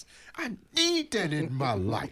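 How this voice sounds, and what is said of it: Childish juvenile-sounding voice. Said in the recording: “in my juvenile voice.”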